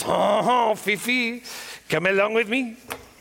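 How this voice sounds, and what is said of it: Put-on French accent. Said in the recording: “I don't know why she has a French accent”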